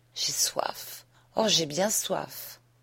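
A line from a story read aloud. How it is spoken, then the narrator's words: Sighed. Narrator (French): soupira-t-elle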